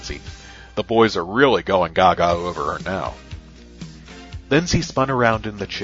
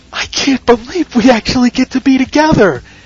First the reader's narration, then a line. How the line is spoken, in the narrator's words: she giggled